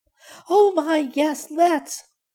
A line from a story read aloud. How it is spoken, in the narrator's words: cried Violet